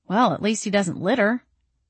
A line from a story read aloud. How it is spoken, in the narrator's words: I muttered